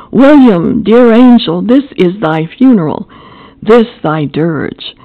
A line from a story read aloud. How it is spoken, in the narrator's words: exclaimed aloud